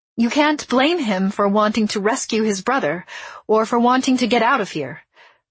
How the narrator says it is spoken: I said, my voice quaking with fear

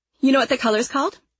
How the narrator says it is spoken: she snapped

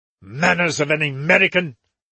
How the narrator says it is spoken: he began hotly

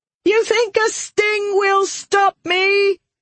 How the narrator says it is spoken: she screamed at Alidian

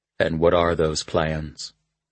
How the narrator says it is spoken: he asked quietly

